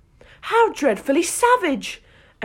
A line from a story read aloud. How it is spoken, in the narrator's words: exclaimed Alice